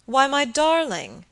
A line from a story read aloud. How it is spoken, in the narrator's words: he exclaimed